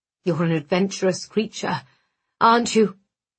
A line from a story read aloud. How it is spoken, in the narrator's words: His voice was rough, his breathing harsh